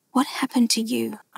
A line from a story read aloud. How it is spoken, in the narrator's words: I asked in a shaky whisper